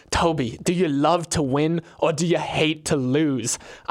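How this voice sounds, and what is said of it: Put-on British accent. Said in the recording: “he was British, so this is my British accent”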